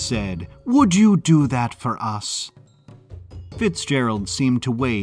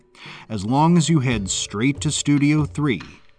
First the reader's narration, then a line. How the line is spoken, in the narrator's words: he said in a paternal tone